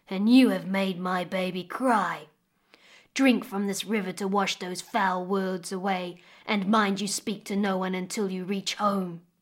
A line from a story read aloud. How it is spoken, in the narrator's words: growled the crocodile